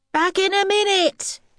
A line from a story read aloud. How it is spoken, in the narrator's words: yelled Harvey